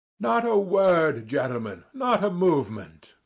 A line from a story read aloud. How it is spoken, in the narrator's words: cried Zverkov solemnly